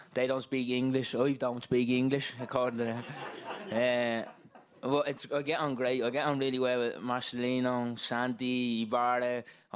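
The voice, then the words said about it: Strong hard-to-understand accent. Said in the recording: “accent, like, a lot of people don't understand my accent.”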